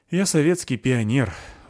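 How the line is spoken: Sighing. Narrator (Russian): вздохнул Петрович

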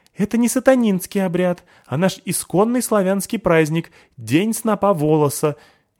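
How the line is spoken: Frightened squeak. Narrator (Russian): испуганно пискнул в ответ Дуримар

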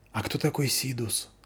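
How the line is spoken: Whispered question. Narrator (Russian): спросила Заверушка шепотом

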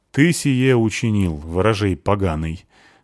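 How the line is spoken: Priest's stern question. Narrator (Russian): спросил священник строго

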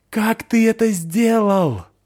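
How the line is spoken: Yelling. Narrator (Russian): завопил Чота

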